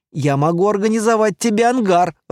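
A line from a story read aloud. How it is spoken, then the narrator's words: Laughing. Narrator (Russian): рассмеялся я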